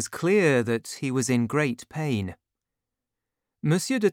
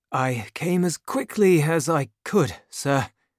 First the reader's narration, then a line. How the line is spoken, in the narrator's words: the man said in a weak voice